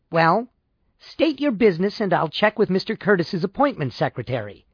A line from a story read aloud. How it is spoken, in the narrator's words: She said sharply